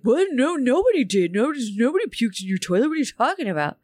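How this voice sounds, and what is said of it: Imitation of teenagers' defensive denial. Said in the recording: “That's how they sound. ... It was a great impression.”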